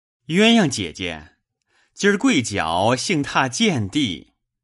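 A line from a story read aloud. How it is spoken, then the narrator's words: Laughing. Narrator (Chinese): 笑道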